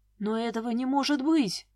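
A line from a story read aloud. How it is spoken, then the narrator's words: Breathless. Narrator (Russian): выдохнул Илья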